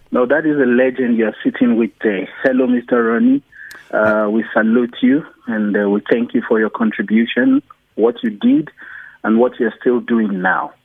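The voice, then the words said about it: Non-South African foreign accent. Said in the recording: “from my accent you can see that I'm not originally from South Africa”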